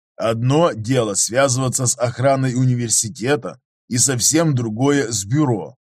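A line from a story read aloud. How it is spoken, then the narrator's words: Plain. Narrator (Russian): ответил ей Готтер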